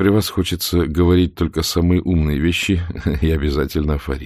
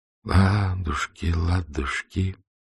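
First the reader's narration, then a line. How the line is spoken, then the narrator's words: Soft singing. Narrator (Russian): начал тихонько напевать Максим Максимович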